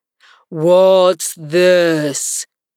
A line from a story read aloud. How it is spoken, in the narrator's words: he said, speaking in a deep, hollow tone that sounded like the tolling of a great bell